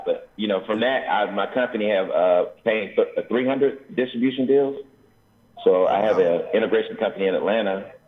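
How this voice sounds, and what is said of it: Strained, nearly lost voice. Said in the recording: “my voice is gone, too, so it's a little hard”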